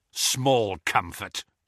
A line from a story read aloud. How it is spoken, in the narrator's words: snarled Kingsley